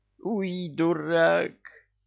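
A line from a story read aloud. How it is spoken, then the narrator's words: Groaning. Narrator (Russian): простонал бывший бес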